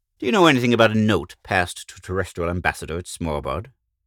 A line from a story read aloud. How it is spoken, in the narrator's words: Retief asked